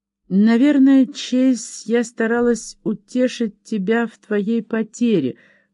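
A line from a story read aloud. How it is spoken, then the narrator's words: Trembling voice. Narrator (Russian): произнесла она дрогнувшим голосом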